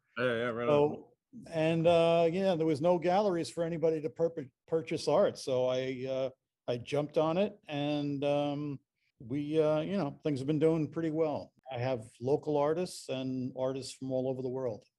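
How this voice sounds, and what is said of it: New York Long Island accent. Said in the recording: “tell them by your accent, you're not from here ... I grew up in New York, Long Island specifically”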